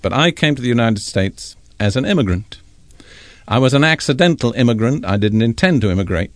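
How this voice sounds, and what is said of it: Non-American accent. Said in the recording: “I was not born an American. I imagine that my voice tells you that”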